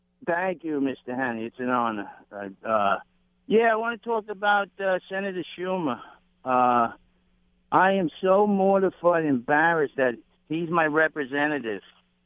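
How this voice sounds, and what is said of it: Strong New York accent. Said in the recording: “you have more of a New York accent than even Linda”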